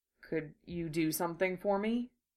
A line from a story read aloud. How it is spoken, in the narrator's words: he asked, his voice quiet, hesitant